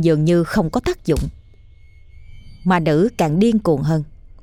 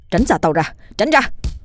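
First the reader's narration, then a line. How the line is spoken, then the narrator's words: Shouting. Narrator (Vietnamese): anh vừa hét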